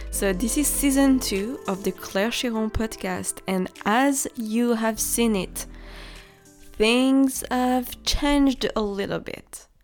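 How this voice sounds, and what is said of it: French accent. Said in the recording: “I am French. Maybe you can hear it from my accent.”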